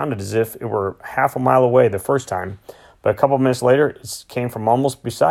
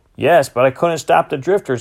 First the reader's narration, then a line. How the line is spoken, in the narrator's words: I hollered